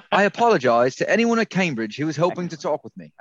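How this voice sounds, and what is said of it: Put-on English accent, John Cleese. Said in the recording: “You should do it with an English accent. ... I don't sound like John Cleese, though.”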